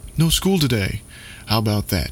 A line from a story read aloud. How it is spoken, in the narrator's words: exclaimed